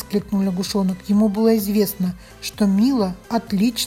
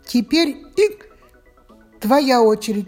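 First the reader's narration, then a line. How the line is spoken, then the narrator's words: Laughing, hiccuping. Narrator (Russian): рассмеялась Мила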